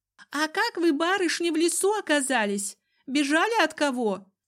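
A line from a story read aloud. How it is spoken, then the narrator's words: Thin-voiced question. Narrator (Russian): Спросил кто-то из толпы тоненьким голосом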